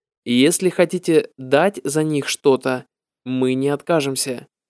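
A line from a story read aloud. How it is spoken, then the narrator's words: Very serious tone. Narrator (Russian): Прабхупада ответил очень серьезным тоном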